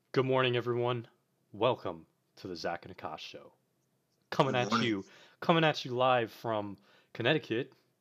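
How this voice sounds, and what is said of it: Announcer-style radio voice. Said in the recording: “That's my uh, radio voice right there.”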